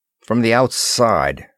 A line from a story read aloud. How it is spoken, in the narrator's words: grumbled Moore